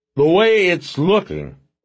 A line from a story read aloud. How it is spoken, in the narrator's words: Porter said loudly to no one in particular